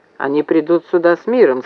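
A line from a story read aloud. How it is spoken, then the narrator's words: Plain. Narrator (Russian): сказал Мак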